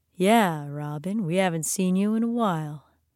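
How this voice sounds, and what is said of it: Deep rumbling male voice. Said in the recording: “Micah's deep voice rumbled”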